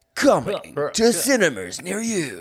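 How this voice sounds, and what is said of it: Over-the-top movie trailer voice. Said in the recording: “over-the-top trailer voice.”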